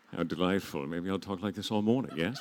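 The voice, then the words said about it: Put-on English accent. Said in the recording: “I'm talking in an English accent all of a sudden”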